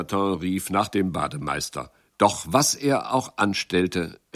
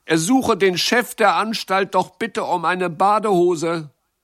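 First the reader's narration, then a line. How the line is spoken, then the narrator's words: Calling out. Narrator (German): rief Jacques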